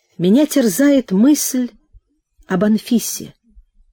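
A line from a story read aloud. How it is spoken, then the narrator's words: Timid mumbling. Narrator (Russian): робко стал выбарматывать Прохор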